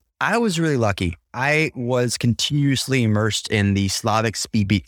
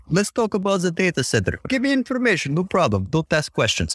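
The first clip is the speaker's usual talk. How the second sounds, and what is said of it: Put-on Slavic accent. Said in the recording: “not unless I turn on the Slavic accent”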